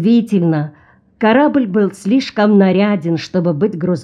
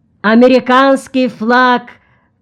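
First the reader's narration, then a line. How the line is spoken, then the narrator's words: Two voices shouting together. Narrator (Russian): крикнули одновременно Антон и Тнарат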